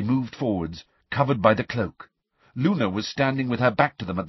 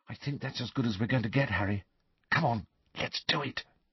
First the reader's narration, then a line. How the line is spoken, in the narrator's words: Hermione said quietly